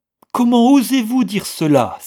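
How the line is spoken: Furious cry. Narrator (French): s'écria Vixen, folle de colère

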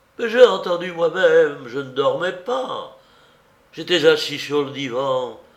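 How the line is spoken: Very fearful voice. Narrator (French): dit-il d'une voix plus craintive que jamais

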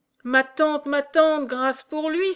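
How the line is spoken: Exclaimed. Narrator (French): s'écria Catherine

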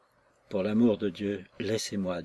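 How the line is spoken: Weak, faint voice. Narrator (French): dit-elle, d'une voix affaiblie

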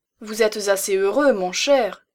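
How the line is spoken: Exclaiming. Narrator (French): s'écria Stidmann

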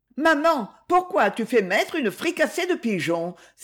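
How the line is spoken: Pained exclamation. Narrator (French): s'écria Lucette douloureusement

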